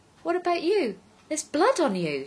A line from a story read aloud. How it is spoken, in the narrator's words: she exclaimed